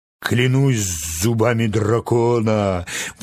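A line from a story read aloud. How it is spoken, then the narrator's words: Admiring exclamation. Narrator (Russian): воскликнул восхищенный моряк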